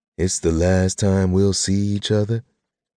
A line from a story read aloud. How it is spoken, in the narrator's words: She said in a deepened tone that I guessed was supposed to be mocking mine